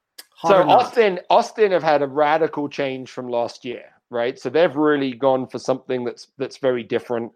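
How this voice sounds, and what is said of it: English accent. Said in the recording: “you're English ... don't let the accent fool you.”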